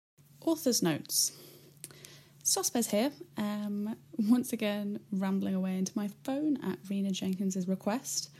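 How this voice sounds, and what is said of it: Raspy voice. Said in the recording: “I'm currently really, just really hungover. So sorry if my voice is a bit raspy”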